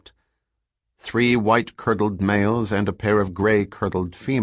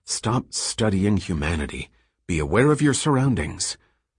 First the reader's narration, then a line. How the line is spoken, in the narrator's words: Doors muttered to him